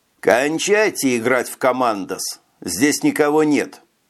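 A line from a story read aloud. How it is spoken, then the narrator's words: Plain. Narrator (Russian): сказал он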